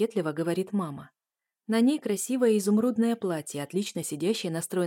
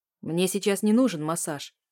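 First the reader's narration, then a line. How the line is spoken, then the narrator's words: Rude reply. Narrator (Russian): грубо отвечает ей Самарин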